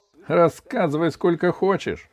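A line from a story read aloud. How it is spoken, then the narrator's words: Forced laugh. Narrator (Russian): Иван неестественно рассмеялся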